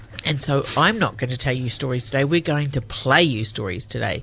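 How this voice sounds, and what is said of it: Voice with a heavy cold. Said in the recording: “You may notice by my voice, but you may not, I've got a cold. I've got a really bad cold.”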